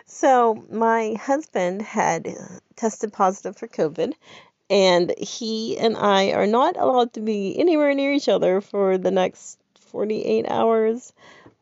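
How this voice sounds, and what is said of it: Congested head-cold voice. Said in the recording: “as you can tell by my amazing voice, I have a head cold.”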